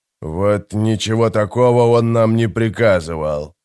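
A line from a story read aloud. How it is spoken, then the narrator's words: Grumbling. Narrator (Russian): проворчал Громила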